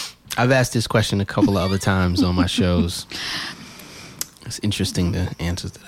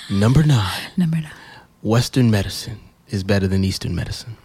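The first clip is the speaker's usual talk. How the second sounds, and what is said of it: Announcer-style radio voice. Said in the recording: “I got to put my radio voice back on.”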